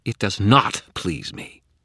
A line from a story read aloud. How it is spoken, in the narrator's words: she spat, sudden and vicious